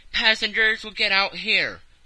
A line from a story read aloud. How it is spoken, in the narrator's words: The conductor passed along the carriage, shouted